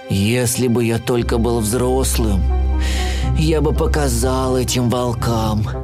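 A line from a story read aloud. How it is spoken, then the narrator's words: Sighing. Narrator (Russian): вздохнул Брюн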